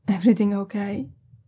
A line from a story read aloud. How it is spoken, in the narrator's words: asks sleepily